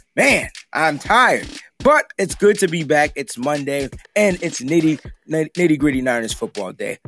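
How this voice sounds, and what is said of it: Hoarse, tired-sounding voice. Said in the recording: “My voice is about as hoarse as a horse.”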